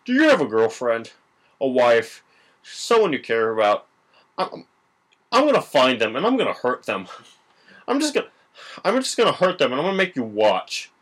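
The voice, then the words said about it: Imitates another person's voice. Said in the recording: “my Philip Seymour Hoffman impression”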